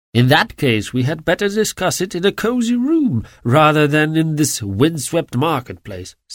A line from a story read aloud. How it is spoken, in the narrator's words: said he